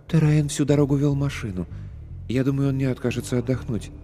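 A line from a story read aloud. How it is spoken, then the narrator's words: Soft, soothing tone. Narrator (Russian): Смягчая резкость моего ответа, Эллис сказала тихо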